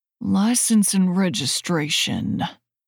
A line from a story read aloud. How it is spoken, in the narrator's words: growls